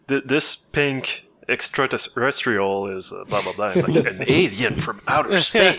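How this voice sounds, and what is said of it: Bad Snake impression. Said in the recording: “That was a terrible Snake impression.”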